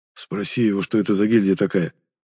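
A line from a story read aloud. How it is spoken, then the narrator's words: Whispered. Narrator (Russian): Арбитр шепнув мне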